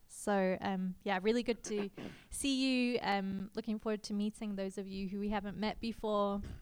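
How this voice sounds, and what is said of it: Unusual South African or English-sounding accent. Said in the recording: “I have a very strange accent. To you, it might sound South African or English, but actually, I get Australian a lot”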